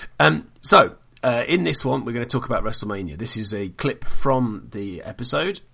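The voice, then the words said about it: Congested, bunged-up voice. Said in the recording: “I've been quite ill with a bad throat infection ... I'm sure you can still hear the last bits of it now as I remain all bunged up and ridiculous”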